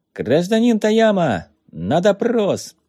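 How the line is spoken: Loud shout. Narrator (Russian): он громко крикнул

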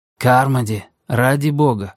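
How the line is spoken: Even voice breaking into shout. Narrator (Russian): начал Джейк ровным голосом, но сорвался на крик

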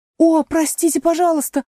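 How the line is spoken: Apologetic cry. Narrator (Russian): закричала Алиса, видя, как ощетинилась мышь, теперь уже наверняка обиженная

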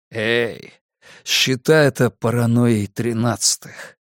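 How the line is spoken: Sighing. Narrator (Russian): Карл вздохнул

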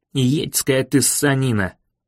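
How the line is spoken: Muttered under breath. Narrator (Russian): Пробормотал он почти себе под нос

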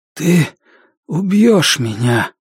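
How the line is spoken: Hoarse wheeze. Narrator (Russian): Он прохрипел

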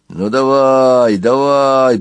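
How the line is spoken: Growled. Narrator (Russian): прорычал Фасвунг

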